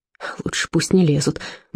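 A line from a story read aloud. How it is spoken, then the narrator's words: Grumbled. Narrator (Russian): буркнул Отто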